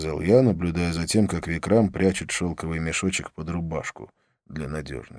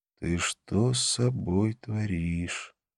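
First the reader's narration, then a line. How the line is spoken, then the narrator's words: Quiet, close. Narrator (Russian): наклонившись поближе, тихо сказал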